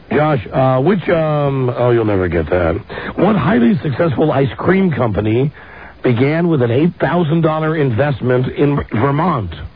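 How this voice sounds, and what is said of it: Hoarse, strained voice. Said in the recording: “God damn, I lost my voice.”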